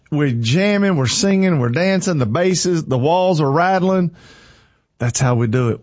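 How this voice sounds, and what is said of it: Breathless, out-of-breath speech. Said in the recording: “I'm out of breath... I really am out of breath, y'all. Y'all think I'm joking? I am not joking.”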